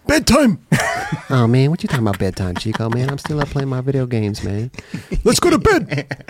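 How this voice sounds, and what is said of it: Imitates another person's voice. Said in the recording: “you do a Jerron impression”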